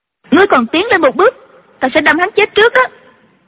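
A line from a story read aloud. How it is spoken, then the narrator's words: Shouted. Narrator (Vietnamese): Chu Chỉ Nhược quát lên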